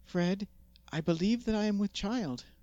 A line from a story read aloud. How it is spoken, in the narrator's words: exclaimed